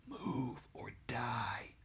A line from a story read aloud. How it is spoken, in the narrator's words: whispered the flames